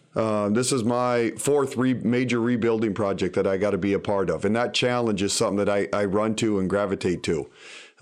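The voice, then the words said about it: Slight Canadian accent. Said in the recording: “you have kind of a Canadian accent ... Even you say, yeah, like that.”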